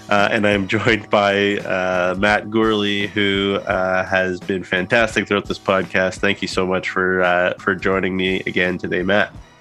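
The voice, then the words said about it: Husky, congested voice. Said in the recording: “a little bit sick with a cold ... if my voice sounds a little bit more radio voice and husky-like, it's because my sinuses are as clogged”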